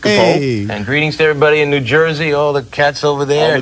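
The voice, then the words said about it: Half-hearted impression of another person's voice. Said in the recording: “He's doing like half of his Frank Sinatra impression.”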